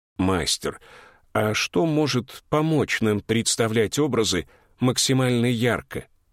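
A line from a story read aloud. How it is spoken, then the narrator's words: Calm voice. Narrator (Russian): спокойным голосом произнес Эрик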